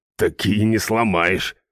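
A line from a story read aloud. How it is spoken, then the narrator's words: Grumbling. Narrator (Russian): проворчал наемник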